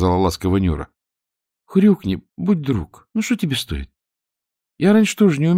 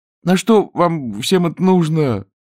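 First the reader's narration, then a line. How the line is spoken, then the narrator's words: Groaning. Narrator (Russian): застонал Чонкин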